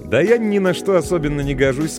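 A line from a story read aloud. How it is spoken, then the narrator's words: Quite cheerful. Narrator (Russian): сказал вполне весело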